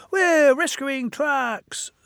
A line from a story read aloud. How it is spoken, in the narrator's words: squeaked Ben